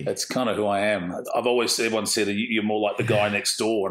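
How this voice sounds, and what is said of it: Strong Australian accent. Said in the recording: “your accent is a lot more Aussie than mine.”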